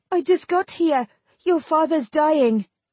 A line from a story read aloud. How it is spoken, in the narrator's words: panted out